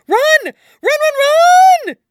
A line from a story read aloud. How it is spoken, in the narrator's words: A familiar voice shrieks